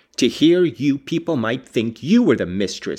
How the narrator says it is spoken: cried

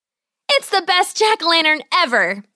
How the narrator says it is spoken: she exclaimed

